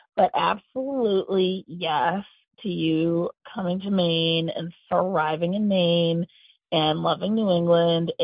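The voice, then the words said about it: Scratchy morning voice. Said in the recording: “my voice is scratchy. It's 6:45 in the fucking morning”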